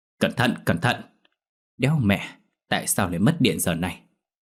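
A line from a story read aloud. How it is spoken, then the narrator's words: Harsh shout. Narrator (Vietnamese): Lão Tính quát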